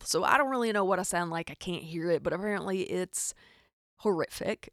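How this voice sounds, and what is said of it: Rural Arkansas Southern accent. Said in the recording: “I am from Arkansas, in case you can't hear the hick in my accent. ... It's definitely audible. People hear it.”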